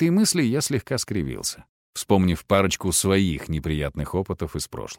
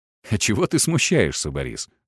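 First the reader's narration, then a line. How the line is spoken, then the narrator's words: Laughing. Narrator (Russian): засмеялся я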